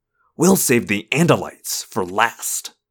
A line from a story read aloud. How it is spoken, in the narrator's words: he hissed